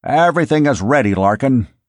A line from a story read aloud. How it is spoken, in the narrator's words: McDowell said